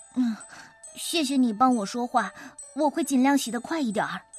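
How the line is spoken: Sighing. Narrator (Chinese): 那个瘦小的洗碗工叹了一口气

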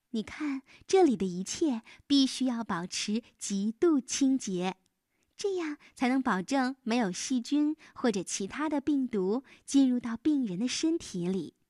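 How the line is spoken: Smiling. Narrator (Chinese): 娜娜笑着说

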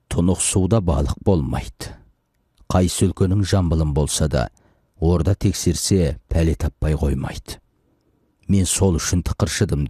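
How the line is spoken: Plain. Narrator (Kazakh): деді

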